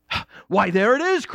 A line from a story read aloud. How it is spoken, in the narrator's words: cried the prince